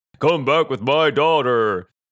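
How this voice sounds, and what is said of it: Imitates another person's voice. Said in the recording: “That's my impression. ... That Taken?”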